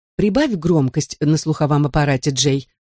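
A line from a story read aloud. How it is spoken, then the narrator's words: Plain. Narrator (Russian): сказала бабушка Сара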